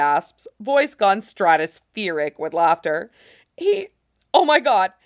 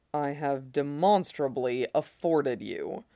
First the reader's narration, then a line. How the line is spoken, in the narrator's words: Roy murmurs, just for Ed's ears